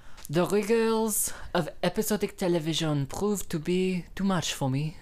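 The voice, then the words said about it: Put-on French Canadian accent. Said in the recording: “my French Canadian impression ... That was pretty good French Canadian ... just Canadian enough”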